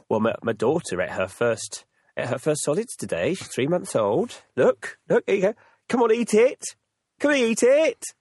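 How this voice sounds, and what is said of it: Put-on American accent. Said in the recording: “Obviously with an American accent.”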